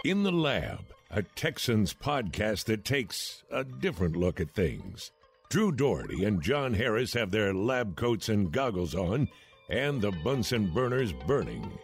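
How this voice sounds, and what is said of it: Silky deep male voice. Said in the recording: “that silky deep voice”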